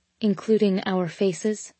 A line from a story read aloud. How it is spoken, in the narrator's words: I said quietly